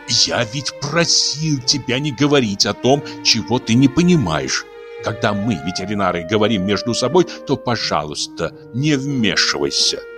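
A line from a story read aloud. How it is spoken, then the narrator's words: Angry hiss. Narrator (Russian): шипел сердито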